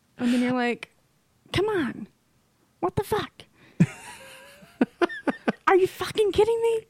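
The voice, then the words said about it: Impression of another speaker's swearing. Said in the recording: “impersonating them. Hearing someone do an impression of”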